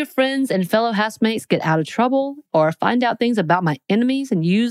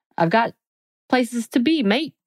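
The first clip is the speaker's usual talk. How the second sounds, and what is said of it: Put-on accent. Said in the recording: “That was my accent.”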